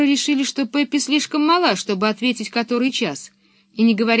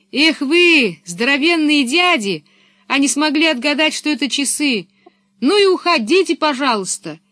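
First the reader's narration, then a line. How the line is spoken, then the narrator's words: Shouting after someone. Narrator (Russian): крикнула им вслед Пеппи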